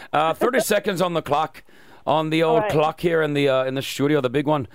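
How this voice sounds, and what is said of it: Put-on Irish accent. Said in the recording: “I'm going to do it in this accent because I like it. I really like the Irish accent... I'm doing it even in an Irish accent... It's Irish.”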